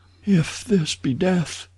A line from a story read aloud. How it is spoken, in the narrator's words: she murmured